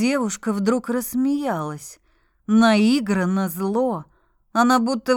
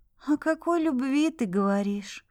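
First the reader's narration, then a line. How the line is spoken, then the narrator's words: Tired question, young woman. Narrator (Russian): устало спросила девушка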